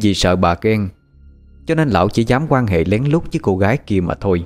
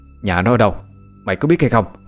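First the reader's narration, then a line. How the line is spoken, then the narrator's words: Furious shout. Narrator (Vietnamese): bà chánh tổng tức lắm, quát lên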